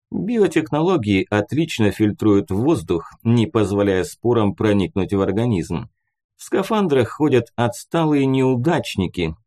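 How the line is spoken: Chuckled. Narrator (Russian): хохотнул он

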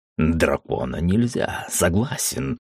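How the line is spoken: Furious whisper. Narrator (Russian): яростно прошептал

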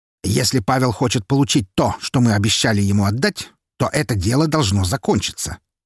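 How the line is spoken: Sharp, abrupt. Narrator (Russian): резко произнес Харитонов

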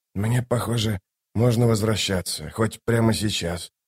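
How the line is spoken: Grumbling mutter. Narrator (Russian): буркнул Ток

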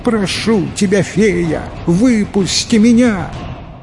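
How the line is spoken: Shouted. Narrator (Russian): Закричал тут чиновник

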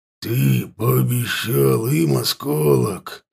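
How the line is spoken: Predator forcing through teeth. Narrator (Russian): выдавил сквозь зубы хищник

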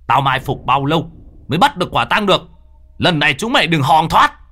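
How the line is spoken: Shout. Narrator (Vietnamese): Người nọ hét lên

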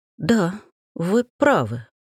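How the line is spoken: Forced, strained. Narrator (Russian): выдавила я

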